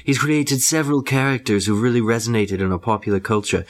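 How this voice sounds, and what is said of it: Imitates another person's voice. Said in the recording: “I'm going to try and do this in my David Yates voice.”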